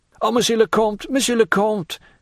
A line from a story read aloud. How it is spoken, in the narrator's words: cried the steward, struck with terror at this threat